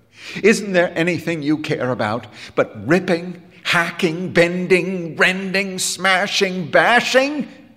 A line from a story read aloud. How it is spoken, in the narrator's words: He cried